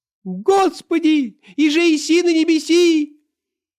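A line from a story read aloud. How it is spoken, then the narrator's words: High thin shout. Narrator (Russian): закричал таким тонким голосом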